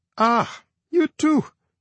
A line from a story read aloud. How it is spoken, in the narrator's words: she said, laughing